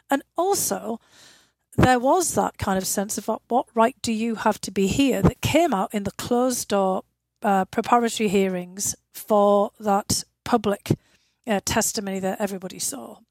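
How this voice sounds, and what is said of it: Unusual northeast English accent. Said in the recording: “I grew up in the northeast of England, a coal mining town ... not only do I have a British accent, but I have a very unusual one”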